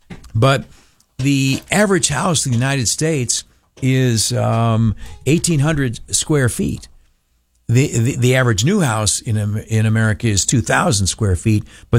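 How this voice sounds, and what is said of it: Voice sounds a bit rough. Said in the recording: “Forgive my voice. It's a little crappy tonight.”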